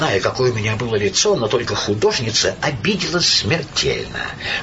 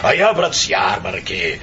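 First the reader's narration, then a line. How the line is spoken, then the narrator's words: Booming laughter. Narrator (Russian): он громыхнет хохотом и скажет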